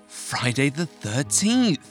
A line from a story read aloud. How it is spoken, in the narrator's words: gasped Marianne